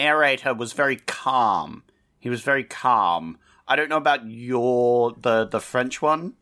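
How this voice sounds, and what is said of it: Usual voice. Nothing is said of it.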